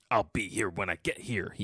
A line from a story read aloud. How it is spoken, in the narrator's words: he mutters